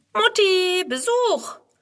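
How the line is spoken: Cheerful call. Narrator (German): Friedrun ruft fröhlich

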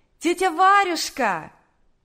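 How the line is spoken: Shouted from a distance. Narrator (Russian): крикнула еще с улицы Наташа

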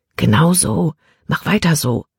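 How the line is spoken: Quiet voice. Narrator (German): sprach Caleb mit leiser Stimme

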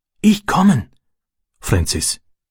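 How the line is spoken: Whisper. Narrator (German): flüsterte er

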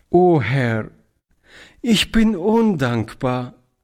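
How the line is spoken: Tearful choked cry. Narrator (German): rief Toni mit tränenerstickter Stimme

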